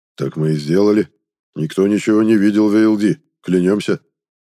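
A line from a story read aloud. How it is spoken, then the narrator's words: Mumbled reply. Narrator (Russian): промямлил кто-то в ответ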